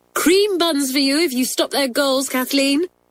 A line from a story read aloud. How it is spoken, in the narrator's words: cried Janet